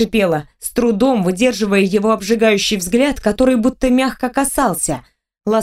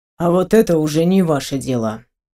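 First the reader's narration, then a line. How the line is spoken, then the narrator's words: Cold, curt interruption. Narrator (Russian): Оборвал он холодно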